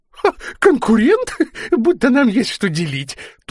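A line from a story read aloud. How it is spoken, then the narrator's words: Fat man's thin squeal. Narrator (Russian): тоненько завизжал толстяк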